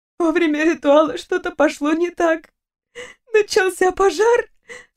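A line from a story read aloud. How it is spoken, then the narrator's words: Sobbing. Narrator (Russian): всхлипнула Вика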